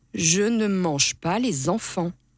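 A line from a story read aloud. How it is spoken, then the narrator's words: Calm reply. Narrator (French): répond calmement Monsieur Loup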